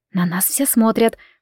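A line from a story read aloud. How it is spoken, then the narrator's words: Whispered. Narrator (Russian): прошептала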